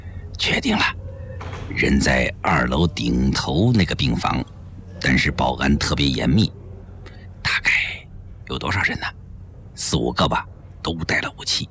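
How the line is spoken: Low-voiced report. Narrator (Chinese): 一个特务……低声汇报

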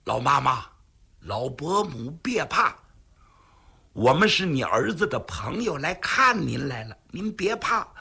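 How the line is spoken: Low, soothing voice. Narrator (Chinese): 为了不叫老太太害怕 尽量压低了声音

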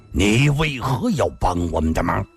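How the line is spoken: Stern, harsh voice. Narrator (Chinese): 金无命 厉声地说道

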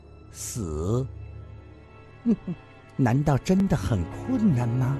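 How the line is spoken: Smiling, soft voice. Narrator (Chinese): 嫣然一笑，柔声地说道

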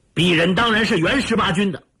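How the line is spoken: Loud, flustered. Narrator (Chinese): 上校涨红了脸，大声地说

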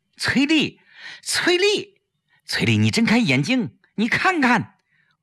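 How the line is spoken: Loud calling. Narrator (Chinese): 他大声叫着她的名字

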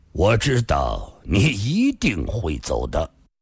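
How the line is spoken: Calm old man. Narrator (Chinese): 老人淡淡地说道

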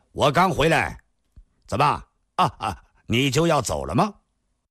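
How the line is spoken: Loud voice. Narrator (Chinese): 郭松阳大声地说道

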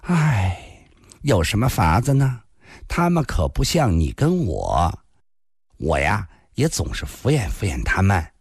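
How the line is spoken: Sighing. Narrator (Chinese): 林仙叹了口气

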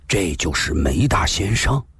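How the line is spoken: Big man whispering. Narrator (Chinese): 悄然大汉悄声地说道

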